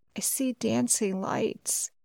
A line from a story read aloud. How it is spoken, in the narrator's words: said hoarsely